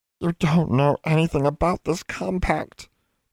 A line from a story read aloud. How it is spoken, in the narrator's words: the house elf moaned